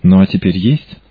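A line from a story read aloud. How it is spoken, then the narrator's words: Affectionate. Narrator (Russian): сказала ласково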